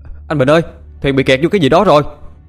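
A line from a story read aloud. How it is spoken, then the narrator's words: Shouting. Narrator (Vietnamese): Lái tàu hét lên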